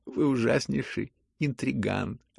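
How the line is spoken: Sudden sincere laughter. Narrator (Russian): рассмеялся он вдруг самым искренним смехом

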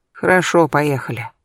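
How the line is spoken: Sighed. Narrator (Russian): вздохнула

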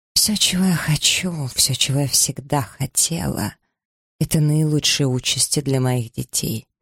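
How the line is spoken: Quiet. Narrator (Russian): произнесла она тихо

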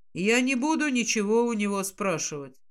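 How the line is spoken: Calm. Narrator (Russian): спокойно говорит Киллиан

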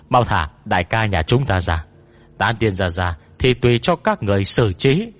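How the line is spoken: Angry shout. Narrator (Vietnamese): Bạch Vô Cầu tức giận hét lên

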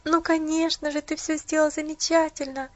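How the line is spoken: Sobbing. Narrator (Russian): всхлипнула Поллианна

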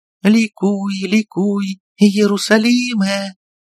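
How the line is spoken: Boys' choir singing joyfully. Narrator (Russian): Голоса мальчиков, которые как фуги пели каждый свое, в последнем такте умиротворенно и радостно слились воедино

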